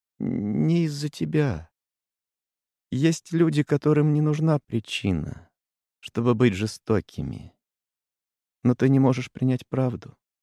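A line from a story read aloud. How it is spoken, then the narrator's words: Soft. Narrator (Russian): мягко проговорил Стах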